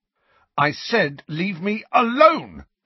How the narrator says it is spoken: Harry shouted, running down the nearest flight of stairs

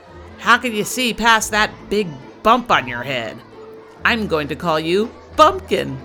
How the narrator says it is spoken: a new child at the school shouted out from the back of the classroom

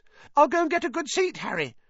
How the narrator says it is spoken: Colin called after him in a piping voice

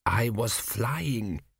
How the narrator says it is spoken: he whispered

